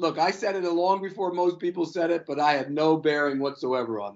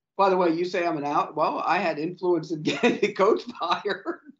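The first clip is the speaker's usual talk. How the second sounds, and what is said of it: Sarcastic tone. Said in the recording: “I'm kidding. I'm being sarcastic.”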